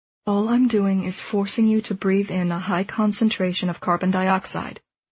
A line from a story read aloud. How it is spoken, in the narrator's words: he continued calmly